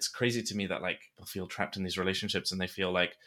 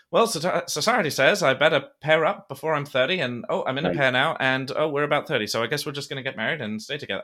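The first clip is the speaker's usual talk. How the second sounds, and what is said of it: Put-on transatlantic accent. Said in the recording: “they have a transatlantic accent, but you know, it's the 20s”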